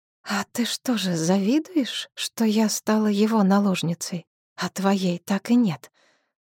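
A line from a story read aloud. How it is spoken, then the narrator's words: Hissed. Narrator (Russian): Прошипела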